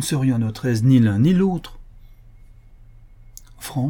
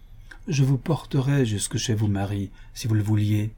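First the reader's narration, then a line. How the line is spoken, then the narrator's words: Pathetic, plaintive tone. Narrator (French): dit Frank d'un ton pathétique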